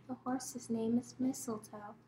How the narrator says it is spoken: The mirror whispered sweet and low

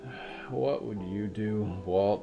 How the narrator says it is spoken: She groaned

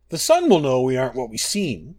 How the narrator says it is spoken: cried Masser

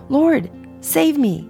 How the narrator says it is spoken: he was afraid and began to sink, cried out

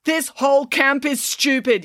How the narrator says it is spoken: yelled Brandon

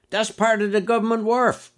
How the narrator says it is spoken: one shouted against the wind

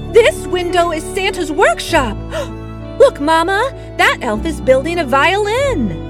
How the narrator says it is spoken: A small girl with pigtails called out excitedly, just inches away on the other side of the glass

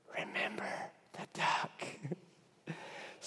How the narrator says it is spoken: again she whispered

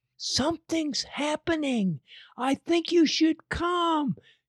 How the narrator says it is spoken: whispered

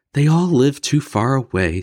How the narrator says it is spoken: sighed Mama

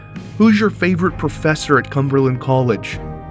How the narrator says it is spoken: Heisman yelled over to the massive Cumberland batter

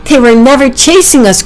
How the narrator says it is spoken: cried Packy

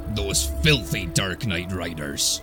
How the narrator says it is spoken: spat Aldor

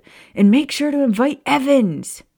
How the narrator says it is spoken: he shouted

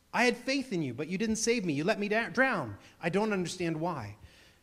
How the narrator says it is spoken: he exclaimed

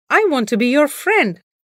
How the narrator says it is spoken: the crow called out

